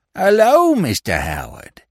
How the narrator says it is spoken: he exclaimed with feigned joy

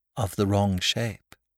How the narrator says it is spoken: said the priest calmly

